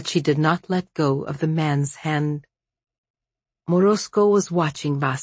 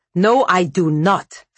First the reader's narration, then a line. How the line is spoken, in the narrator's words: snapped Vasya